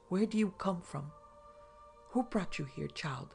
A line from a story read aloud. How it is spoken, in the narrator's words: gasped out Nicholas, as pale as death